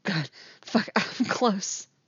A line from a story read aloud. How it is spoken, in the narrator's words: she whimpers